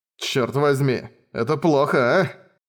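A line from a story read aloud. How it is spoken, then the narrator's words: Muttered. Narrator (Russian): пробормотал Райнер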